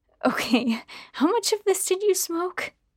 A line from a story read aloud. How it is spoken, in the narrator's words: laughed again